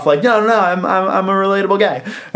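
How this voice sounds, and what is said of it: Whiny, higher-pitched imitated voice. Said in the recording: “I think my Leno is just a whinier Brando. Like a higher pitched Brando.”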